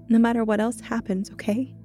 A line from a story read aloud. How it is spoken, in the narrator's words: I said through muffled sobs